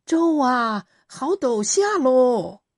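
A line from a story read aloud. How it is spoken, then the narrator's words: Shouting from afar. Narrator (Chinese): 罗先知远远的喊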